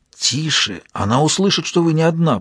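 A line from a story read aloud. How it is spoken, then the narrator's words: Whisper. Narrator (Russian): прошептал писатель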